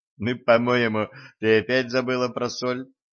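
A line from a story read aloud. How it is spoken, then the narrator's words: Giggling. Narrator (Russian): хихикнул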